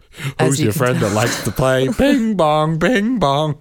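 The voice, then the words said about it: Richard Kind's Bing Bong voice. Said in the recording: “You sound like Bing Bong. ... I do a pretty good Richard Kind impression.”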